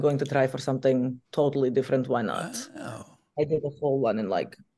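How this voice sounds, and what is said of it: Usual voice. Nothing is said of it.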